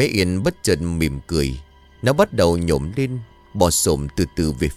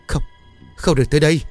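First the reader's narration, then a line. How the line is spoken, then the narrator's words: Trembling broken throaty voice. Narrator (Vietnamese): Cô ta run rẩy nói đứt quãng trong cổ họng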